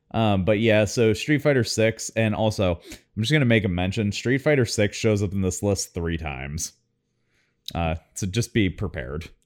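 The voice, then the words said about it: Loud, boisterous speaking voice. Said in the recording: “Why are you yelling? ... You're a little loud. ... You're like super loud. ... you just have a boisterous voice.”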